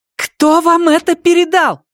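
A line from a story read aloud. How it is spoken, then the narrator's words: Shouting. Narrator (Russian): кричала Андреа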